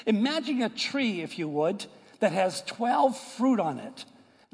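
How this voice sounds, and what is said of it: New York Boston American accent. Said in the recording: “I, am from New York and Boston area. You could tell by my accent, I'm not from the deep south.”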